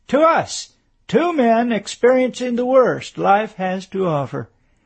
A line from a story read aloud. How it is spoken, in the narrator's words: The President exclaimed